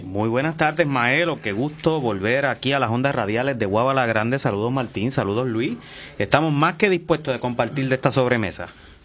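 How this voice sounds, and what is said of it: Polished radio announcer voice. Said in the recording (Spanish): “¿viste esa voz de locutor y periodista?”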